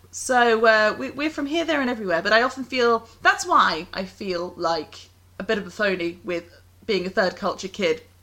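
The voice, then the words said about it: Strong British accent. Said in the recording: “this outrageous British accent”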